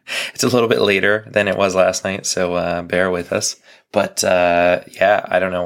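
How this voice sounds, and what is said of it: Voice cracking in and out. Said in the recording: “my voice is still in and out”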